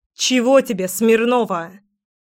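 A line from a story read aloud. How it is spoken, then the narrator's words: Barking shout. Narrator (Russian): Рявкнула Леська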